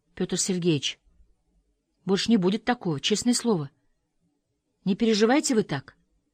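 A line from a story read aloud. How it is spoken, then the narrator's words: Frightened whisper. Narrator (Russian): испуганно прошептала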